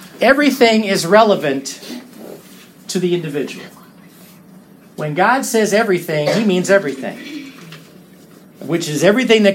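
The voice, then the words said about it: Speaks with a twang. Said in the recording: “You got a twang there.”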